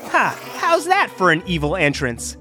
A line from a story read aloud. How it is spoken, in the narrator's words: he said, and then let out an evil laugh